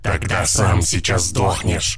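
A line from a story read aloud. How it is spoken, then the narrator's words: Menacing hiss. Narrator (Russian): прошипел дядя Улыбка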